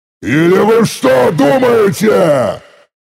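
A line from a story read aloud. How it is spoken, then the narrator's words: Thunderous roar. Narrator (Russian): Взревел я так, что стекла в соседних зданиях задрожали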